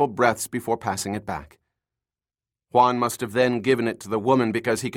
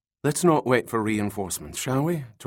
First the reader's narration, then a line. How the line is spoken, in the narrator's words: Torrey said